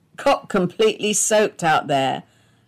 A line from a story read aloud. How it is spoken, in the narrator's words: laughed her husband